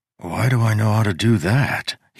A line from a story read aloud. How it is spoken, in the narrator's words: He muttered